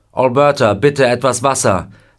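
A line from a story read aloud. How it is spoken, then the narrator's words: Calling out. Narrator (German): er ruft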